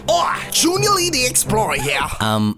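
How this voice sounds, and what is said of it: Poorly done put-on accent. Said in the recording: “That accent is not good at all.”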